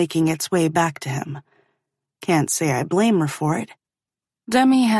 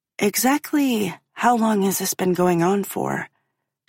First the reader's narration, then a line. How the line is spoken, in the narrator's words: she asks